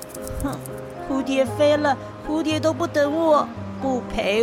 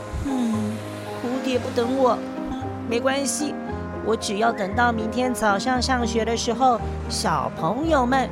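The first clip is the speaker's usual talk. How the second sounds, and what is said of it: Quiet, soft speech to oneself. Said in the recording (Chinese): “小声地说给自己听”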